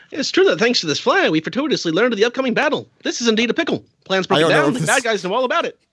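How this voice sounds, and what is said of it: Old-timey 1930s film narrator voice. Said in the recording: “do the voice ... I don't know if that was the voice, but whatever. I guess he sounds like a 1930s film strip.”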